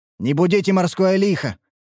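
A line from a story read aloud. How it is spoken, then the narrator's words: Stern sailor. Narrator (Russian): строго произнес один из дежурных матросов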